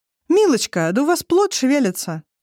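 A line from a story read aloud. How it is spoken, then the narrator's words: Joyful exclamation. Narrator (Russian): радостно воскликнула врачиха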